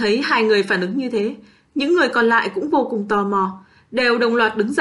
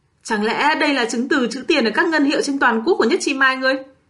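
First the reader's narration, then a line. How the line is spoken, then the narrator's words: Excited exclamation. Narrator (Vietnamese): Kim Kiền kêu lên kích động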